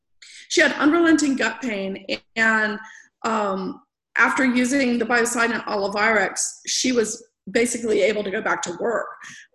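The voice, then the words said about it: Hoarse, failing voice. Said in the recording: “Sorry, I'm losing my voice.”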